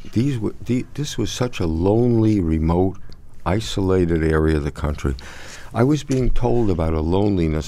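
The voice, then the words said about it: New York accent. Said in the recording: “I'm a New York boy, as you can tell from my accent”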